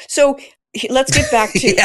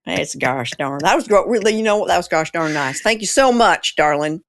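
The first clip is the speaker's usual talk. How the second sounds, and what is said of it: Put-on Southern US accent. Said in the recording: “Suddenly I'm south of the Mason-Dixon line ... You can choose the Southern.”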